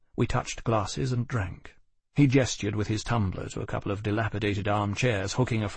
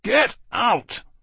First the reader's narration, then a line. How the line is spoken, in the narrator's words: roared Seeley